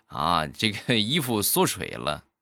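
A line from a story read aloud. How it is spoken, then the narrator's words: Laughing. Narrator (Chinese): 我笑着就说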